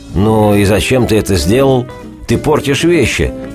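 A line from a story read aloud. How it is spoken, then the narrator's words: Grumbling. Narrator (Russian): проворчал Спектр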